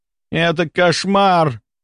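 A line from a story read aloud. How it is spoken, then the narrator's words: Groaning. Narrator (Russian): простонал он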